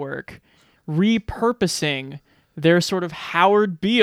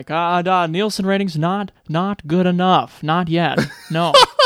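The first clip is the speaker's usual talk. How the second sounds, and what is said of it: Jeff Goldblum impression. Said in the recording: “Goldblum as just being like ... it's such a good impression.”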